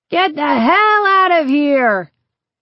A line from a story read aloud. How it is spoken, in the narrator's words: the man yell